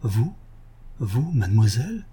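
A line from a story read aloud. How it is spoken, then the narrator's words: Shaken murmur. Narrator (French): Arsène murmura, bouleversé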